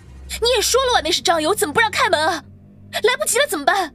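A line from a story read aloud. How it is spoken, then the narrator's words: Anxious, loud. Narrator (Chinese): 郑婉晴这次急了，大声说话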